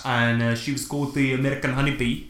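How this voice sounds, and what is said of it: Put-on South African accent. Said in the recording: “I don't know why I'm saying it in a South African accent.”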